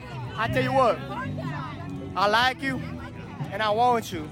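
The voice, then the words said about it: Poor put-on Southern accent. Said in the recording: “That a good Southern accent? ... It wasn't good. I would rate it about a 3. ... It was fucking terrible. ... it was bad.”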